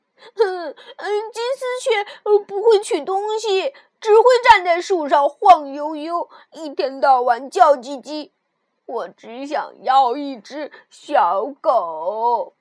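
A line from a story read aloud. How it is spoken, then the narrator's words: Crying shout. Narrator (Chinese): 鲁迪哭喊道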